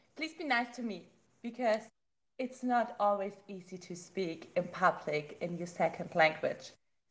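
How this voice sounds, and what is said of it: German accent. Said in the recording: “obviously, you can hear my German accent.”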